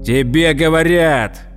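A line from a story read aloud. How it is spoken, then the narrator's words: Barked. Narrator (Russian): гаркнул высокий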